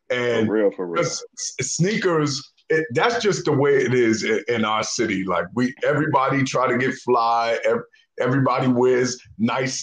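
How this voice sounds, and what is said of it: New York accent. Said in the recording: “they heard your accent”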